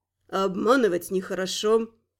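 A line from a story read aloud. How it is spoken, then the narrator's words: Calm reply. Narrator (Russian): спокойно отозвался он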